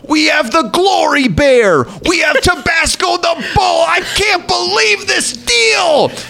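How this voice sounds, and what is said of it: Over-excited home shopping announcer voice. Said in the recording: “he was a guy who would talk like this... it's like my Taffer impression... And he would go nuts.”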